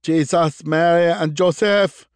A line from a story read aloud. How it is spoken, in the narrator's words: yelled a voice next to him